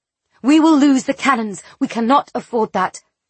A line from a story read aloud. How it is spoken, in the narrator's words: Larda whistled sharply